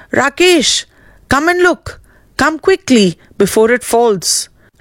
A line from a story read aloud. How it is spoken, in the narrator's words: called out